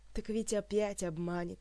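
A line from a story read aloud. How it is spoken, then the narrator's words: Sigh. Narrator (Russian): вздохнула Ольга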